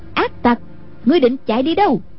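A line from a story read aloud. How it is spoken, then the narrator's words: Loud angry shout. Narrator (Vietnamese): Cô thấy Cửu Thiên Nhận nhảy khỏi thuyền, quát lớn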